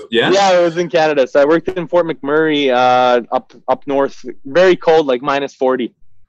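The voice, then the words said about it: Slight accent. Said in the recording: “we can probably detect a little bit of an accent there”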